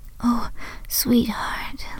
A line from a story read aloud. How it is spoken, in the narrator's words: Lisa gasped